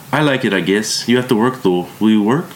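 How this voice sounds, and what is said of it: Strong German accent. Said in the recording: “She had a strong German accent.”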